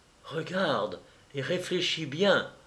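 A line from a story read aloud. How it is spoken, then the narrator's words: Fairy whispering in ear. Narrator (French): me souffla la fée à l'oreille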